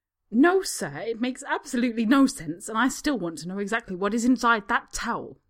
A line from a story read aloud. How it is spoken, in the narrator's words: the woman snaps